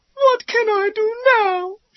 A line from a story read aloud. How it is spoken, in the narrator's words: She cried